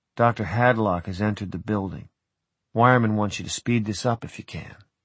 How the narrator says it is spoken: murmur in my ear

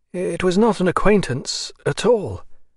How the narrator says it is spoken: answered Maslova, anxiously

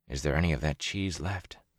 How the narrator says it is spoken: Matt whispered

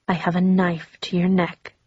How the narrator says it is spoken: he whispered

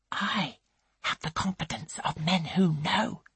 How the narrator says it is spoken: she whispers

